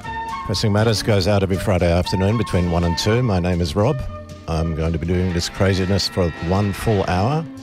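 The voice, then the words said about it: Congested, under-the-weather voice. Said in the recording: “You may be able to tell I've got a bit of a cold, a bit of a lurgy lurking at the moment ... almost as incapacitated in their talking and singing capacity as I am”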